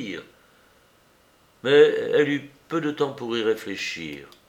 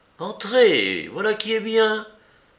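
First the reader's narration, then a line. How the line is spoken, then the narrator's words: Cheerful exclamation. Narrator (French): s'écria gaiement Notre-Dame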